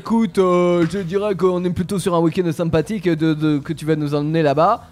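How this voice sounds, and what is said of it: Put-on Marseille accent. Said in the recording (French): “pourquoi tu prends l'accent marseillais”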